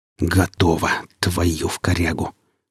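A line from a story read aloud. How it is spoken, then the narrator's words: Relieved exhale. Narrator (Russian): С облегчением выдохнул сталкер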